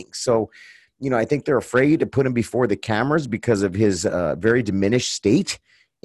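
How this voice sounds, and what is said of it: Tired, strained voice. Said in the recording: “my voice is a little bit different than normal. I'm not sick, but for some reason, I'm losing my voice. ... I think my voice is finally starting to get tired.”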